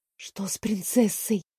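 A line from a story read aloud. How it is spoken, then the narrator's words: Whispered. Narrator (Russian): шепнула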